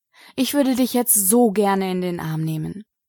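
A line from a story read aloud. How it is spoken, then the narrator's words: Sigh. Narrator (German): seufzte Remy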